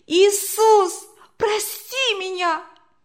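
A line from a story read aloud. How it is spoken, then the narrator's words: Desperate scream. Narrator (Russian): в отчаянии закричала она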